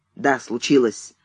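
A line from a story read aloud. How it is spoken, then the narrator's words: Curt. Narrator (Russian): отрывисто сказал Кэнси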